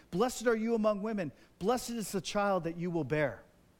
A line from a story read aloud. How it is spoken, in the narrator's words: in a loud voice, she exclaimed